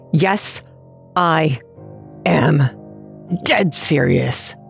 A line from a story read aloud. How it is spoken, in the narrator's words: I grunted, fighting to keep the hanger from slipping from my hand